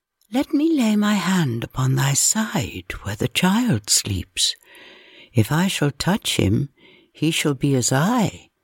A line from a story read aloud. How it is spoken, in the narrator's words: one came to her softly, saying